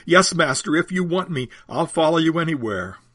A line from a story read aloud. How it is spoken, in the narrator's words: he blurts out